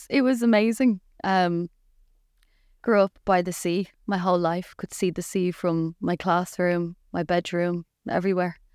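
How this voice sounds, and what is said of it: Irish Dublin accent. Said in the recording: “I'm from Dublin ... Accent obviously hasn't really gone anywhere.”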